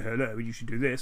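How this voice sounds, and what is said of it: Mock posh English accent. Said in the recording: “a funny accent ... that funny accent's either really posh”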